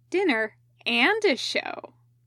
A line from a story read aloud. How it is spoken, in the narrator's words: Katsuko agreed cheerfully through a mouthful of bean bun